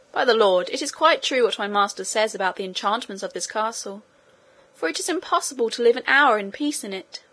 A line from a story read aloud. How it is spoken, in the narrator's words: Sancho exclaimed